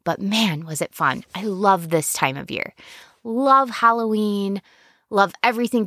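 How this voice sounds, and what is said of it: Scratchy, strained voice. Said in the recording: “if my voice is a little scratchy, it's because I just went to a haunted house ... and I screamed my head off ... my vocal cords are really, really scratchy today”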